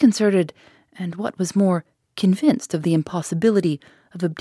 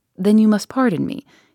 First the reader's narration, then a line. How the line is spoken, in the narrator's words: respectfully but firmly replied